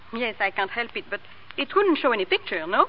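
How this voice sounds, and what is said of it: Speaks with a foreign accent. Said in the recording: “you've got an accent”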